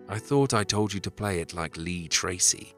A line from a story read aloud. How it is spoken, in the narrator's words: he growled, time and again